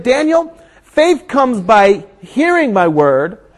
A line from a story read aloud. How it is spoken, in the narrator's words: He said